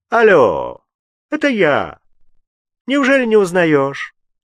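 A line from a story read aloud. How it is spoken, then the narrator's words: Brash jaunty tone. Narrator (Russian): Фабель сказал разбитным тоном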